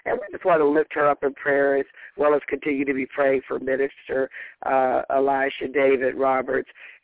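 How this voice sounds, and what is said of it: Slightly hoarse voice. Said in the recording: “I'm a little hoarse from hollering too much last night”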